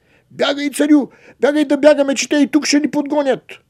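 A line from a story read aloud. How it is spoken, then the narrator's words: Shouting. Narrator (Bulgarian): той извикал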